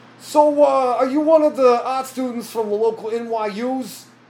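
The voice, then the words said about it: Put-on stereotypical Brooklyn accent. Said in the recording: “very super Brooklyn ... Very Italian. ... Kind of like the Italian from the Super Mario Brothers movie ... very stereotypical Brooklyn accent”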